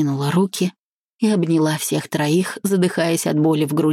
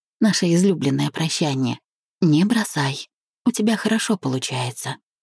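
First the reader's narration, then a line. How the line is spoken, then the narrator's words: Whispered. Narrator (Russian): шепнула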